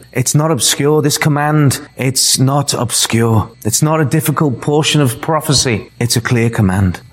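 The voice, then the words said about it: Speaks with a noticeable accent. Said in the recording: “if you didn't quite catch what the words I was saying because of my accent”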